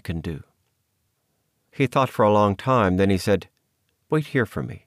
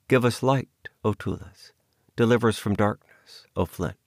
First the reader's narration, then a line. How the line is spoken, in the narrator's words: she murmured in a faint voice